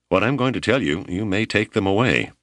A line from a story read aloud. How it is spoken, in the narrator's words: Shig laughed and said